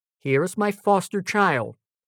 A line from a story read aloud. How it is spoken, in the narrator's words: exclaimed Mother Wolf proudly